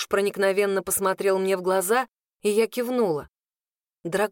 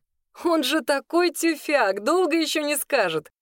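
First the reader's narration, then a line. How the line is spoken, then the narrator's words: Laughing. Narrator (Russian): рассмеялся Кируш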